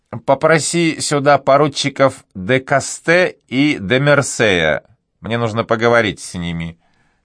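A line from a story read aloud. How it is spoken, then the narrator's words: Plain. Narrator (Russian): сказал майор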